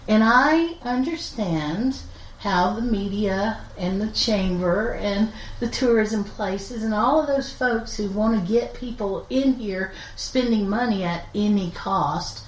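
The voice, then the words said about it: Strong rural American accent. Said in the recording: “they'd hear my accent ... "Oh, this is Granny from the Beverly Hillbillies,"”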